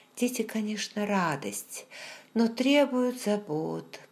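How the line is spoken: Sleepy mumble. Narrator (Russian): пробормотала я, засыпая

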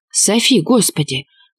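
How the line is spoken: Muffled whisper. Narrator (Russian): зашептал, прижимаясь лицом к моей макушке

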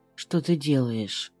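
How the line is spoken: Hoarse voice, swallowing. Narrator (Russian): спрашивает Пальчевский осипшим голосом, сглатывая

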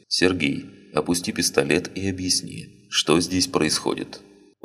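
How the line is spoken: Calm. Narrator (Russian): спокойно произнес

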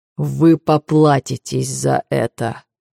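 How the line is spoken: Low muffled promise. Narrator (Russian): глухо обещает Зевс

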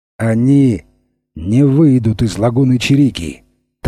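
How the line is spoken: Solemn declaration. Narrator (Russian): торжественно заявил шефе политику

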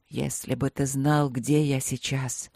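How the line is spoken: Mumbling. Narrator (Russian): пробормотал Вэй

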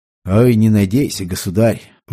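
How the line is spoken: Sighing. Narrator (Russian): вздохнул ректор

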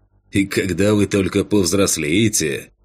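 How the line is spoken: Snorting. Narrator (Russian): хмыкнул Кэн

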